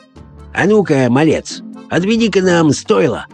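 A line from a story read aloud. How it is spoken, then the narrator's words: Rough hoarse request. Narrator (Russian): попросил он грубоватым, хриплым голосом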